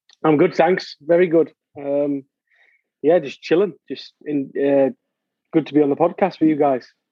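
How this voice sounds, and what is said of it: Northeast English accent. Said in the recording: “You're definitely not from the South in the United States... Darlington, England. The northeast of England... the accent is a little bit different. Everyone thinks I'm Irish”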